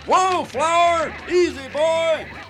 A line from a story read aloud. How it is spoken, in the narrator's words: the guy in the white beard yelling